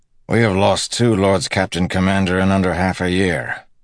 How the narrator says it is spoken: Harnish said in a gruff voice

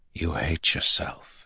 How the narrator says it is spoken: Rand whispered

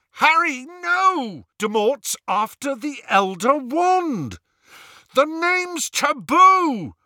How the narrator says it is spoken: Ron bellowed

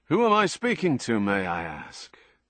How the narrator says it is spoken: A warm chuckle

